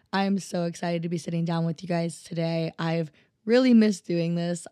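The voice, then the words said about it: Unusually low, deep voice. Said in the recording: “my voice does not sound like this all the time. It is usually a little bit higher than this. Whenever I get like sick or lose my voice a little bit, it gets super low.”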